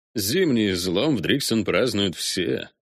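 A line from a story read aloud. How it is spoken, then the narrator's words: Scoffing. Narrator (Russian): хмыкнул Виконт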